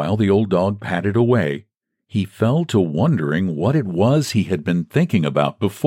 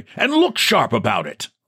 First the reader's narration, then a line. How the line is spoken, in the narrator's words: he said sternly